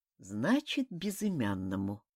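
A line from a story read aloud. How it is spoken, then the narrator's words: Muttering. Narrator (Russian): пробормотал Сихан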